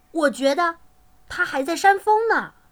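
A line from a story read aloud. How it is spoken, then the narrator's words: Exclaiming. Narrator (Chinese): 他叫起来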